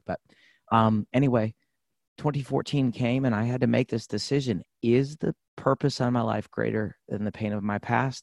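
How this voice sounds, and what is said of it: Rough, hoarse voice. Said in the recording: “my voice, as I told you, I'm just getting my voice back. So if my voice is a little rough today... I've had laryngitis”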